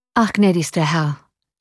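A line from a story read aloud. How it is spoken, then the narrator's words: Sad reply. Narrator (German): erwiderte traurig der Oberst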